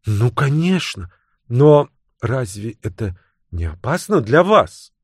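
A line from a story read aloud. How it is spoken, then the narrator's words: Uncertain young woman. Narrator (Russian): неуверенно произнесла девушка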